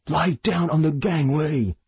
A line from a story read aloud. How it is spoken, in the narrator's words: he shouted at the highest pitch of his voice